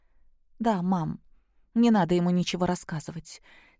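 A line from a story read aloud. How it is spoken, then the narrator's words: Quiet. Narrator (Russian): тихо проговорила Наташа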